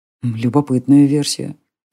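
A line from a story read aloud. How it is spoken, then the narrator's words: Muttered. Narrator (Russian): пробормотал Джари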